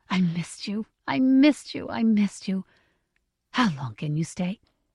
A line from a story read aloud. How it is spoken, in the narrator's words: whispered